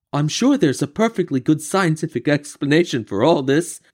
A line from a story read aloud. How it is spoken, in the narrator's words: Shellington said nervously